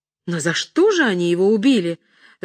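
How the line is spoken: Sorrowful exclamation. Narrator (Russian): с горестью воскликнула дама

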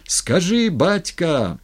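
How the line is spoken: Crowd shouting. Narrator (Russian): орали

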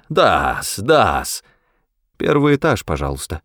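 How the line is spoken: Cold curt remark. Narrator (Russian): Холодно бросила мисс Фауст

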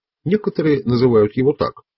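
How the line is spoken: Dry reply. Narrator (Russian): сухо ответил Дон Хуан

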